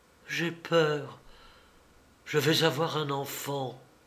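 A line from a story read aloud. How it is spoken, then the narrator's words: Sudden low intent voice. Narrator (French): Tout à coup, elle dit, d'une voix basse et concentrée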